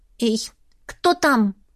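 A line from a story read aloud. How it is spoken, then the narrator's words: Stern question. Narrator (Russian): строго спросила я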